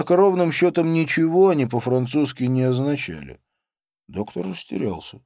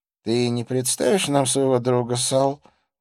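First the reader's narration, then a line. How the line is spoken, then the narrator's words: Forced-smile question. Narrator (Russian): выдавив улыбку, спросил Реми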